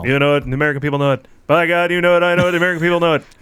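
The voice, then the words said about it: Norm MacDonald impression doing Bob Dole. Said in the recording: “Do Dole as Norm MacDonald. ... I don't do Dole. I do Norm MacDonald.”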